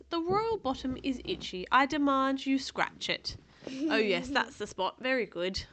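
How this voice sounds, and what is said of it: Put-on English accent. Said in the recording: “I'm sort of doing an English accent”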